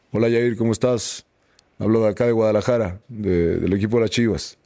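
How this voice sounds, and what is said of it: Imitates another person's voice. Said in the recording (Spanish): “A ver si puedo hacer la voz.”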